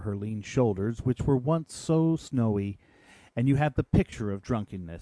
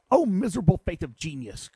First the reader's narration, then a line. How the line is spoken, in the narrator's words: cried he